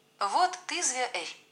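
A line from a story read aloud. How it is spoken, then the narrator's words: Laughing. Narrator (Russian): рассмеялся Леха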